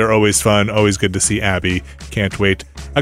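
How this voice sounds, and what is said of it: Usual voice. Nothing is said of it.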